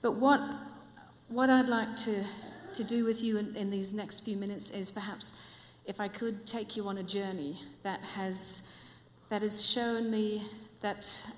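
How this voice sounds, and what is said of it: Mixed New Zealand-Australian-English accent. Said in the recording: “with my accent, it's actually not from here. It's a real mongrel accent. It's from New Zealand, Australia, and for the last 15 years, I've been living in England”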